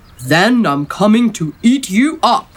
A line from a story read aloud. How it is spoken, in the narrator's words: roared the troll